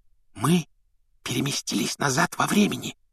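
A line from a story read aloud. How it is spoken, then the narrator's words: Whispered explanation. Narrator (Russian): шепотом объяснила Гермиона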